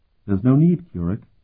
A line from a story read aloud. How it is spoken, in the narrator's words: replied calmly